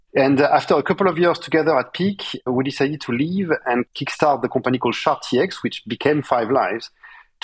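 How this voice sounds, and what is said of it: Strong French accent. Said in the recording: “I could not get rid of my very strong French accent in spite of trying ... I personally enjoy the French accent”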